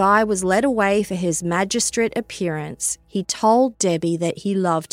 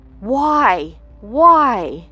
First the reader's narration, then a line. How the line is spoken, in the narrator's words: she cried out